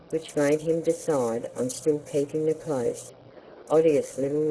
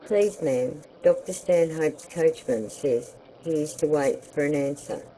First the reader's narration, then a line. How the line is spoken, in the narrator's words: said the servant